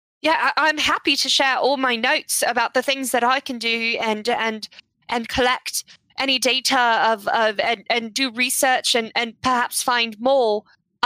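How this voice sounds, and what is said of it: Put-on character accent, not flattened. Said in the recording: “I'm doing the wrong accent. I have to flatten it out a bit... I'm going to flatten that”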